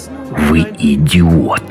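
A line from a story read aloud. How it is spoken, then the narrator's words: Old man hissing. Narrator (Russian): прошипел старик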